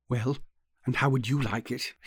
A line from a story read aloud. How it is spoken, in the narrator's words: he said very softly